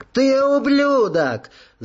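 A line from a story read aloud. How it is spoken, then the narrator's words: Scream. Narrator (Russian): завопила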